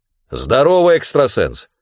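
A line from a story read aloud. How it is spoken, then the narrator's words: Bark over the phone. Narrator (Russian): рявкнул телефон голосом Лучко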